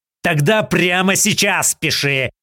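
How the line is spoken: Growled. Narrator (Russian): зарычал Артемьев

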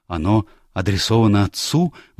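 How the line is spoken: Excited question. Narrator (Russian): взволнованно спросил он

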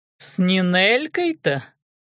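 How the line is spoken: Monstrous chuckle. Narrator (Russian): хохотнуло чудовище, уже мало похожее на человека

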